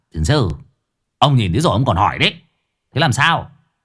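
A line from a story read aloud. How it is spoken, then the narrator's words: Irritable snapping. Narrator (Vietnamese): cậu gắt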